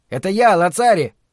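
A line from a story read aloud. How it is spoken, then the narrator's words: Shout. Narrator (Russian): крикнул он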